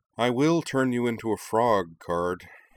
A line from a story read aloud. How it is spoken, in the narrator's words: Tsuwabuki grumbled, reddening